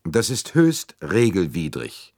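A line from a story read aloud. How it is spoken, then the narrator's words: Cold reply. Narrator (German): entgegnete Arbuthnot kalt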